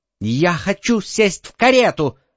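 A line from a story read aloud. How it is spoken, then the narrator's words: Shouting little girl. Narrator (Russian): закричала маленькая разбойница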